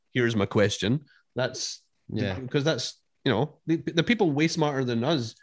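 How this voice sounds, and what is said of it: Poor attempt at Texan accent. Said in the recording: “Is that your attempt at a Texan accent? ... Oh man, that was terrible.”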